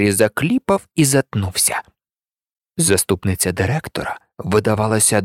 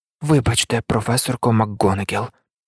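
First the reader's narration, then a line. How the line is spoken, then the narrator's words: Quiet. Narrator (Ukrainian): тихо мовив він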